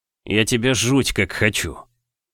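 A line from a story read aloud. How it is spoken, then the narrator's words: Mumbled. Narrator (Russian): пробормотал он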